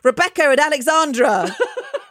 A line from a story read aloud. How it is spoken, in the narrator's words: my brother replied, at the top of his voice